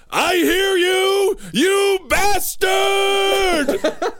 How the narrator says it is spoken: yelled

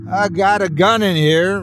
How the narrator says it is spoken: Ryan shouted

